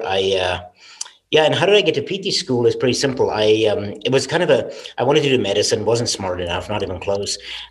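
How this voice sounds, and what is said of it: South African accent. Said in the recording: “I got the funny accent, right? And it's not Southern Iowa. I was born and raised in South Africa, in Cape Town”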